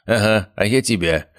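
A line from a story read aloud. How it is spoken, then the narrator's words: Snorting grunt. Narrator (Russian): хмыкнул Виктор Сергеевич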